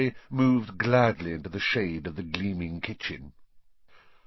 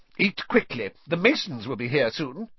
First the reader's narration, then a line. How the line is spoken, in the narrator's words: snapped Aunt Petunia